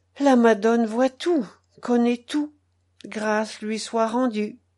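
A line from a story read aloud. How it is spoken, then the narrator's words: Resigned tone. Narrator (French): la mère du mort ajouta d'un ton résigné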